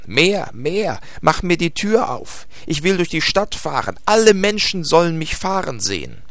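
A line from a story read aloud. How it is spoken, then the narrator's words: Shouting. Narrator (German): schrie Hevelmann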